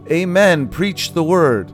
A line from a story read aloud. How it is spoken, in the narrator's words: she shouted